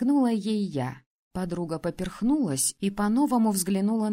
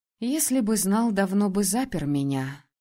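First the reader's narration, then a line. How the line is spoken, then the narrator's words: Feigned sigh. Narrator (Russian): вздохнула притворно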